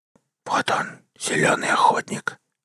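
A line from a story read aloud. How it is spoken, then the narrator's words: Whispering. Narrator (Russian): прошептал последний изгой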